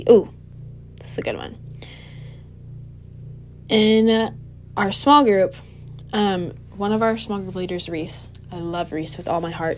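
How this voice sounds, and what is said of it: Strained, fading voice. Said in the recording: “I'm losing my voice, even though I've had like two cups of tea today”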